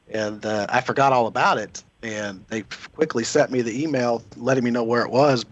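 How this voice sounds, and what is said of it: Hoarse voice. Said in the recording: “my voice is a little hoarse.”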